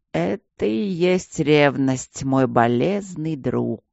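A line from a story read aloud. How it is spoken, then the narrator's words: Imitated voice, hoarse laugh. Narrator (Russian): сказал он себе голосом и хрипло рассмеялся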